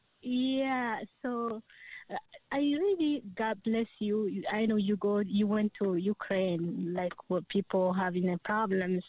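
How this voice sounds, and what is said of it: Ethiopian-accented English. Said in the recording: “my accent ... the accent, I'm thinking, yep, Ethiopia”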